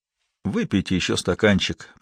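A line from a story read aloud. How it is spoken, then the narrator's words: Muttered. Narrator (Russian): пробормотал он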